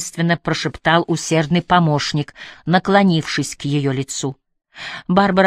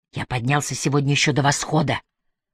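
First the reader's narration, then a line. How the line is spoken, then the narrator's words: Whisper. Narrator (Russian): прошептал Трэвис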